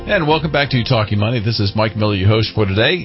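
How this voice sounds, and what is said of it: Deep, resonant radio voice. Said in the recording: “you've got the greatest radio voice, by the way. I always feel like I'm Mickey Mouse sitting here next to you”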